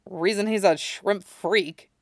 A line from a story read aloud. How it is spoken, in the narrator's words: Yusuke muttered to himself